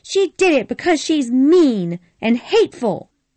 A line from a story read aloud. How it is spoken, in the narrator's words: cried Sue Ellen